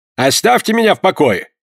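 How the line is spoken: Rude interruption. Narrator (Russian): грубо оборвал он ее

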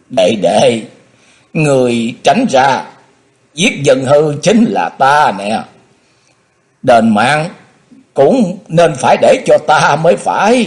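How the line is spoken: Loud, tearful. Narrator (Vietnamese): lớn tiếng nói

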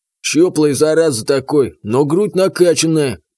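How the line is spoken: Hoarse drunk wheeze. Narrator (Russian): просипел второй алкаш

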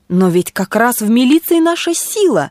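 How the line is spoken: Exclaimed. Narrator (Russian): воскликнул мистер Коулт

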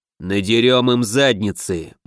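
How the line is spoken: Grim. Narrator (Russian): мрачно закончил Оут

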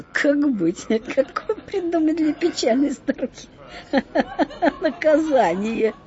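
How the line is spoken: Laughing group deliberation. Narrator (Russian): Совещались они, конечно, смеялись при этом

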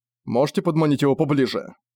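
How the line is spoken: Plain question. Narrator (Russian): спросил он Аланика

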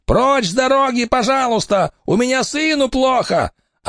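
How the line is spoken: Shouting. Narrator (Russian): Тот кричал

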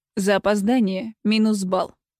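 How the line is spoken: Cold, curt. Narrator (Russian): холодно бросил

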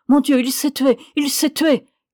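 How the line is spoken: Shouted. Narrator (French): cria-t-elle

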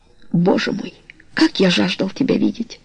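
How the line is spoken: Hoarse. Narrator (Russian): сказал хриплым голосом

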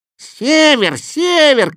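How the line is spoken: Cat shouting while fleeing. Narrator (Russian): кричал кот, улепетывая со всех лап

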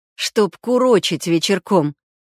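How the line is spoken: Snorting. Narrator (Russian): Кравченко хмыкнул

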